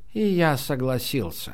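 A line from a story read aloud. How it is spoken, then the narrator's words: Heavy sigh. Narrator (Russian): Герди тяжело вздохнул и сказал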